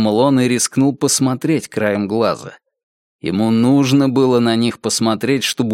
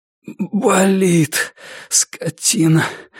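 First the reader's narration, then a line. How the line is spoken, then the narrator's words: Breathy exhale. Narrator (Russian): выдохнул Норман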